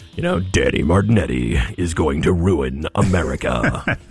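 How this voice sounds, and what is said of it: Booming over-the-top attack-ad voice. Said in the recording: “I should record like a mock ad like that. Do my best boom voice. ... It's just so over the top.”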